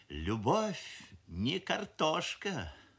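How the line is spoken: Mother sighing. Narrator (Russian): вздохнула мамаша, шеф-повар фабрики кухни номер 7

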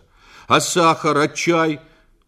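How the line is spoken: Angry objection. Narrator (Russian): возразил Федя, и его пугачевская бородка сердито дернулась

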